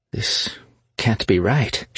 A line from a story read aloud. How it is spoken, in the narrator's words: said, her voice strained